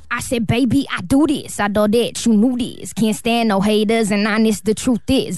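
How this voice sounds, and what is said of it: Imitates another person's voice. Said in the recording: “The last impersonation. ... Iggy Azalea.”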